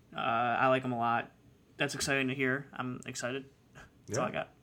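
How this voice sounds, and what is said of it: Flat monotone delivery. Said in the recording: “You sound so excited. ... I'm very monotone, if you couldn't tell.”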